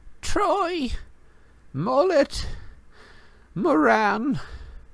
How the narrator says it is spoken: It was still squeaking

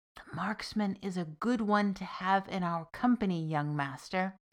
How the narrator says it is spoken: whispered the little green man

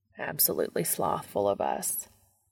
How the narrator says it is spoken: Castiel mutters

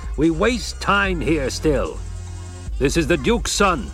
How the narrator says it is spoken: Stilgar barked

